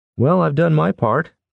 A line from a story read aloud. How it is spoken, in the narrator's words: Tanner called out